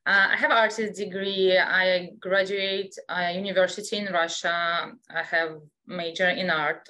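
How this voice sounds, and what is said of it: Russian accent. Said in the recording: “I was born in Russia, so I still have an accent”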